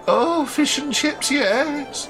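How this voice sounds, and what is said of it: Imitates an elderly aunt's voice. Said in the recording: “That's my impression of my auntie Winnie ... She spoke exactly like...”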